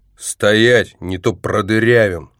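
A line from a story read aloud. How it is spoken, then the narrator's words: Joyful group growl. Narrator (Russian): радостно зарычали они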